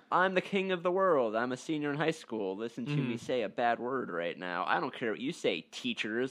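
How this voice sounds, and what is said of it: Cocky high school senior impression. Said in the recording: “that's my impression of... Not your average senior”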